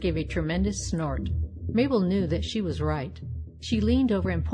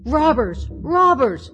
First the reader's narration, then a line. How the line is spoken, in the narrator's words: she cried